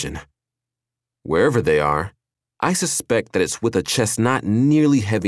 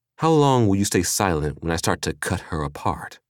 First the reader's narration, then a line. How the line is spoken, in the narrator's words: Rufina purred